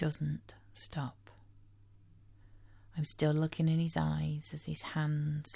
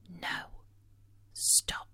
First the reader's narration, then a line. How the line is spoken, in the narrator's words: whisper